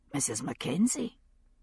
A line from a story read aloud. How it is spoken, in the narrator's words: he said softly